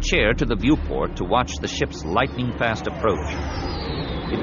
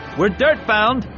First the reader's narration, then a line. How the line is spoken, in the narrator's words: shouted